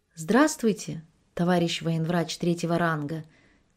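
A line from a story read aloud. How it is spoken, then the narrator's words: Quiet. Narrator (Russian): тихо сказала Мариша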